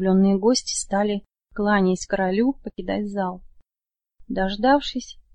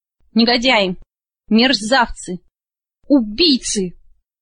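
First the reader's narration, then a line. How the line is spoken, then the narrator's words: Enraged roar. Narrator (Russian): взревел Фрэндик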